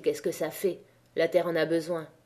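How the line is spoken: Murmur. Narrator (French): murmura-t-il

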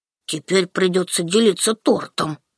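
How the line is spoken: Grumble. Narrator (Russian): буркнул Даня

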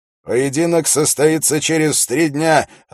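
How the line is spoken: Loud announcement. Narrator (Russian): объявил Холт громко, чтобы его слышали все собравшиеся

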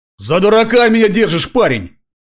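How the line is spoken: Roar. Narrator (Russian): взревел Кавадзаки

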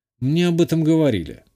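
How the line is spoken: Calm. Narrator (Russian): спокойно ответил я

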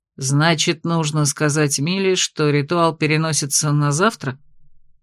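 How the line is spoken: Calm question after pause. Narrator (Russian): Помолчал и спокойно осведомился

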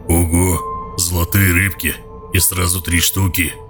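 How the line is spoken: Admiring deep bass. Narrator (Russian): Восхищенно пробасил гоблин

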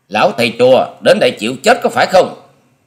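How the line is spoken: Forced shout, hidden fear. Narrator (Vietnamese): Tuy thầm giật mình khiếp hãi, song Long Điểu Kiếm Khách cũng cố dằn y đưa giọng quát lên

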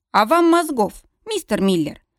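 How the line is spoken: Formal official tone. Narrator (Russian): официальным тоном заявляет Джордан

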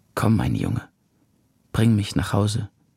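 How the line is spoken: Tearful, hoarse, strained. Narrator (German): Jetzt erst konnte sie weinen und mich fest an sich drücken und mühsam und heiser sagen

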